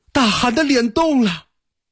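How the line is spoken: Alarmed cry. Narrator (Chinese): 乃马真惊叫道

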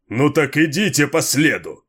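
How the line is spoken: Bellowed order. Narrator (Russian): гаркнул Джеррисон

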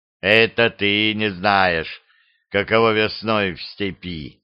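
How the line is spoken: Calm reply. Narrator (Russian): спокойно ответил шепет

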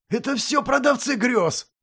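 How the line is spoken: Barked. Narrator (Russian): рявкнул Костоправ

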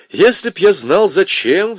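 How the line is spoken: Sighing. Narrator (Russian): вздохнул Лужин

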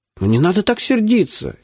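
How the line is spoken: Frightened babbling. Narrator (Russian): испуганно залепетал

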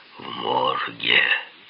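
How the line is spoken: Sepulchral voice. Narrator (Russian): загробным голосом ответил

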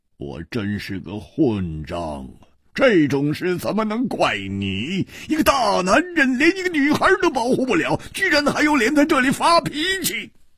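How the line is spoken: Long sigh, self-reproachful. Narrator (Chinese): 胡铁花呆了半晌，长长地叹了一口气

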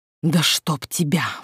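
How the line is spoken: Whispered curse. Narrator (Russian): выругалась шепотом, в очередной раз споткнувшись о прилипшего ко мне Айварта

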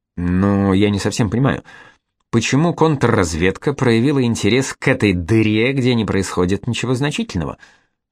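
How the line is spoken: Muttered. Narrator (Russian): пробормотал замполит полка

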